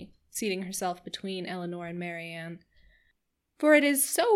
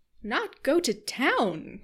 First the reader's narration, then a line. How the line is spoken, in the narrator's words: cried Mrs